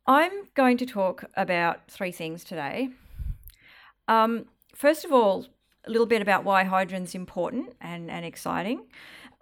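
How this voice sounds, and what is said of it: Slightly husky voice. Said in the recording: “apologise slightly in advance for my voice because I have a cold coming on, so I'm going to be a little bit husky.”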